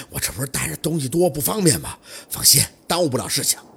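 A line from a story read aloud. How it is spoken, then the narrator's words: Panting reply. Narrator (Chinese): 小六喘着粗气回道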